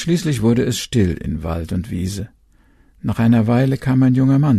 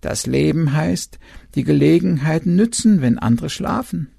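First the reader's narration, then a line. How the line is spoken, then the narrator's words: Owl's croak. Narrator (German): der Uhu krächzte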